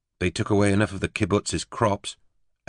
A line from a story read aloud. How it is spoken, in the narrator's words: Eleanor said sharply